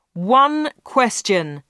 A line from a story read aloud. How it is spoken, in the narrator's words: shouted Dave